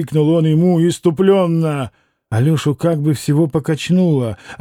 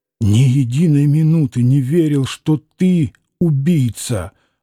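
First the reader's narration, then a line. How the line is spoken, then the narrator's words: Trembling, heartfelt outburst. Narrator (Russian): вырвалось дрожащим голосом из груди Алеши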